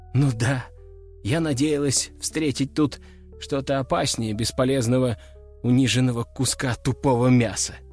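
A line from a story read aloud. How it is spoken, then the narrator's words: Cobra's sigh. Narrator (Russian): вздохнула кобра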